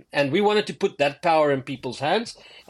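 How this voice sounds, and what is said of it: South African accent. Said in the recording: “a small town in South Africa where I'm from, that you might tell from the accent.”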